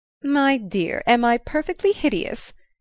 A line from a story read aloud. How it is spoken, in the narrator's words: she asked gaily